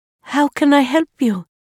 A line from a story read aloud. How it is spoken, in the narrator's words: Amira asked, her voice gentle and welcoming